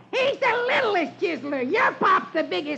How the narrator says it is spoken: Dewey yells back

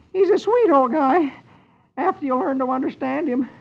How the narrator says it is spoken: Dagwood gives a crooked smile and says weakly

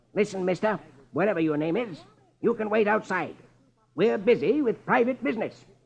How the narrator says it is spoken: Marlowe snaps

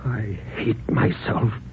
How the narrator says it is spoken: he put his hands over his eyes and whispered

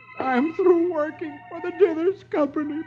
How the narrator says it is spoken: Dagwood, who tearfully tells her

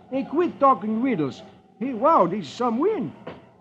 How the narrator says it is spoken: Beetle exclaims

